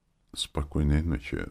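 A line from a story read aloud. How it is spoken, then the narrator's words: Barely audible. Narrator (Russian): сказал он едва слышно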